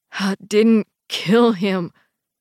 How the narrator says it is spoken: Jesse says, his eyes desperate, pleading

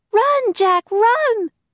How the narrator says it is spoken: cried Annie

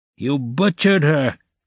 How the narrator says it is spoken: someone shouted in the crowd

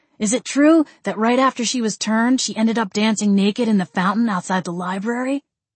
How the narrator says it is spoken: I grumbled

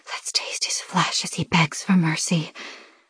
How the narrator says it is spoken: my siren whispers

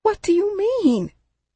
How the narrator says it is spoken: gasped

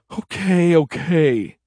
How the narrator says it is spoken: Happy sighed

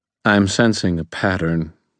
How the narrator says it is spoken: Murphy said in a very dry voice

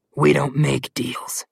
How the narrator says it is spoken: Malamclaw growled

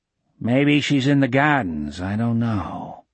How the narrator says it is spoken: the man said gloomily

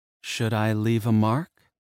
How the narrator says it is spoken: she asked, her voice hushed

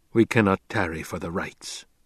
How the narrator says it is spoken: he whispered

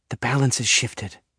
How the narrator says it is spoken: she murmurs

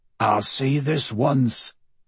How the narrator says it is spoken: growled Robbie McClower

